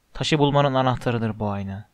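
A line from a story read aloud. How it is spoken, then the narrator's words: Murmuring. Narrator (Turkish): diye mırıldandı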